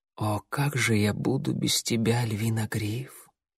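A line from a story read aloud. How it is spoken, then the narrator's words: Whisper. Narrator (Russian): шепнула она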